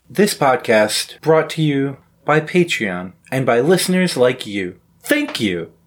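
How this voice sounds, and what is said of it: Public broadcasting announcer voice. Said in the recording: “That was my PBS impersonation. ... Yeah, it sounded like it.”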